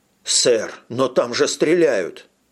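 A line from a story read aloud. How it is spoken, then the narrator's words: Desperate exclamation. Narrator (Russian): воскликнул водитель в отчаянии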